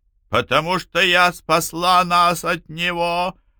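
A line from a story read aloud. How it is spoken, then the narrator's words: Shrill scream. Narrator (Russian): пронзительно завопила та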